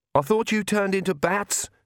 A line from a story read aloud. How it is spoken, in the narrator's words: she shouted to Vlad